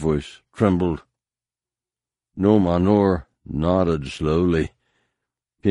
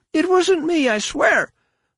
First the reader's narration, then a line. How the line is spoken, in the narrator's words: the shamed one repeated frantically